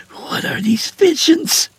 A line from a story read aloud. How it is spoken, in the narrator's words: She hissed, her voice lost amid the gushing water